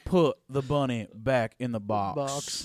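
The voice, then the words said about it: Nicolas Cage impression, Cajun accent. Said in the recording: “Nicolas Cage also speaking in a Cajun accent”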